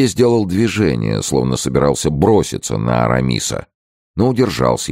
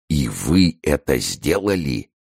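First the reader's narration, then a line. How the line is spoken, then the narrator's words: Whisper. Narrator (Russian): он прошептал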